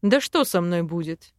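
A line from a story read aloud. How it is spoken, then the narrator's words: Self-assured snort. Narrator (Russian): хмыкнул самоуверенно Арвен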